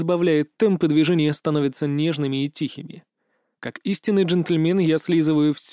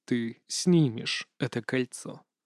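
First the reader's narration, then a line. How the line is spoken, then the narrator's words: Calm. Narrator (Russian): спокойно говорю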